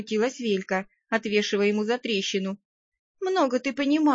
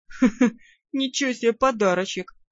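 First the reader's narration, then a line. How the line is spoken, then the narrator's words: Laughing. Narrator (Russian): хохотнул Тимар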